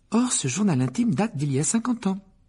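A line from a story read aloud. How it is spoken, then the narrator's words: Overexcited voice. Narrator (French): ajouta Hermione d'une voix surexcitée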